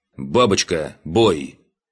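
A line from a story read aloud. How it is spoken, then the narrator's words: Commanding. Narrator (Russian): Скомандовал лейтенант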